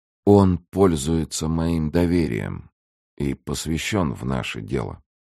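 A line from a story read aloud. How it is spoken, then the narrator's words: Calm. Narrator (Russian): спокойно отвечал капитан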